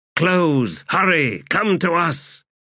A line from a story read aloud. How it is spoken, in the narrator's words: Malazan regulars shouting from their line on the flank, screaming